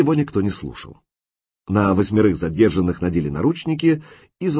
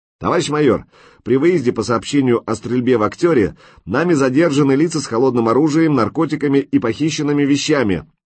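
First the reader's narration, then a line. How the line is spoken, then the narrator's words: Loud report. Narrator (Russian): громко доложил лейтенант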